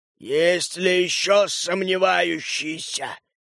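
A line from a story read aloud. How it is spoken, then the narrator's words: Growled. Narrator (Russian): рыкнул он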